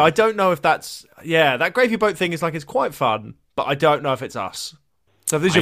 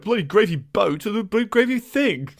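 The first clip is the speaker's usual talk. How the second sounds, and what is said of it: Posh Radio 4 style accent. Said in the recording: “It might be a bit too Radio 4 ... That was a good accent”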